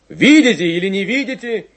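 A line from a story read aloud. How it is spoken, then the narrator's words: Shouting. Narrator (Russian): кричал Войтенко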